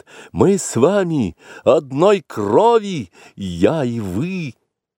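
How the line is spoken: Desperate cry for help. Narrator (Russian): Багира в отчаянии крикнула, зовя на помощь змеиный народ

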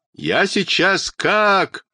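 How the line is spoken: Loud crying. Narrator (Russian): Тома громко заплакала

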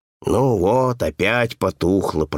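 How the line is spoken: Mutter. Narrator (Russian): пробормотал он

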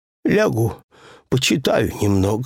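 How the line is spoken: Said with a sigh. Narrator (Russian): сказал Пэтсон, вздохнув

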